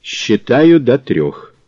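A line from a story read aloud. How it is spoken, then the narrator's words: Cold. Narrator (Russian): Мазур бросил холодно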